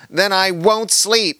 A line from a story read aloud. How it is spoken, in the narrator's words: cried